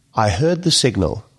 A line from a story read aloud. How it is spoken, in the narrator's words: she said